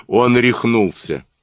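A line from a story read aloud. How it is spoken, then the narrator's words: Clipped, after laughing. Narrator (Russian): Жиро расхохотался, отрывисто произнес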